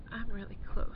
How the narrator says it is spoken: panted

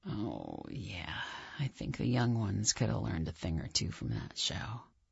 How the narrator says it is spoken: John whispers in my ear

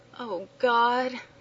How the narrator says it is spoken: moaned

